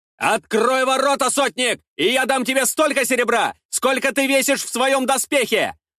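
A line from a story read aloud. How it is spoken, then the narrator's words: Shouted. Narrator (Russian): выкрикнул я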